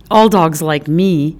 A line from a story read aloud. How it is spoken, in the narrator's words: Izzy said